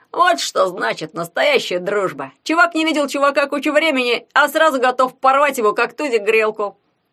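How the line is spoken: Cheerful shout. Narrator (Russian): весело крикнул Ягун

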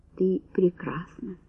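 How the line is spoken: Whisper. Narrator (Russian): прошептал Энтони

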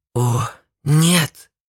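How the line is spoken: Frightened whisper. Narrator (Russian): испуганно прошептал он

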